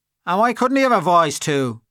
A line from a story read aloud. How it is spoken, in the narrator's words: asked Freddie Mallins sharply